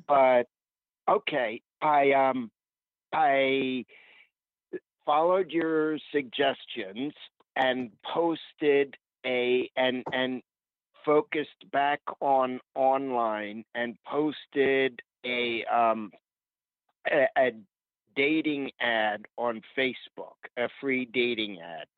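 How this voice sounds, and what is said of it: Hoarse voice. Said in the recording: “I have a little bit of a sore throat, so my voice may be hoarse.”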